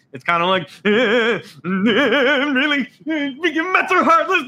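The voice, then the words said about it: Comedy movie character impression. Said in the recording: “do a Frank the Tank impression ... I'm doing a little Frank the Tank”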